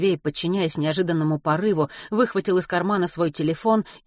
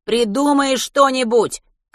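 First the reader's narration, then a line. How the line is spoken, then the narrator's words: Shouted reply while moving. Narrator (Russian): крикнул он в ответ, не сбавляя темпа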